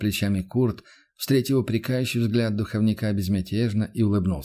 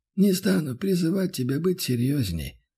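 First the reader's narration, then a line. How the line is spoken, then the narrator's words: Sighing. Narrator (Russian): вздохнул отец Бенедикт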